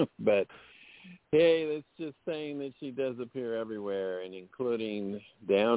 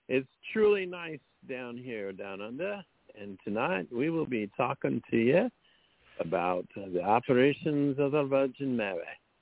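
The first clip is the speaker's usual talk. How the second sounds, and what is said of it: Put-on Australian accent. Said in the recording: “Okay, enough of that. I don't speak Australian.”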